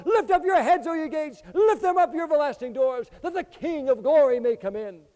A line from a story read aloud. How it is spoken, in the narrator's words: another group cries out